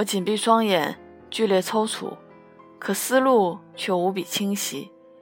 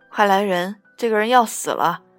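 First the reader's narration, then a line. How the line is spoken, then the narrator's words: Panicked loud cry for help. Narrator (Chinese): 大机灵小姐惊慌失措，高声求援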